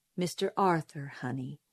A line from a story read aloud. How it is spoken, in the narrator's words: said Atticus, gently correcting me